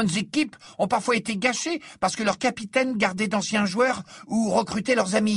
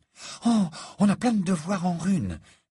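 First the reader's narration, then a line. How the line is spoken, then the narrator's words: Anxious. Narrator (French): dit-elle d'un ton anxieux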